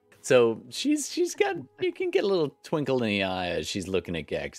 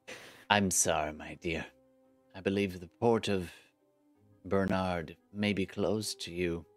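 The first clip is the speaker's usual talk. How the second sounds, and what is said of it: Character voice with fluctuating accent. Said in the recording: “accents and their variations is a canon in my game. All my characters, their accents fluctuate.”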